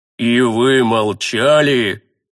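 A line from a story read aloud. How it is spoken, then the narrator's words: Furious roar. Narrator (Russian): Взревел священник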